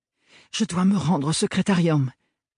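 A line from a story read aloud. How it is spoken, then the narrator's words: Breathless voice. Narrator (French): lui dit-elle d'une voix essoufflée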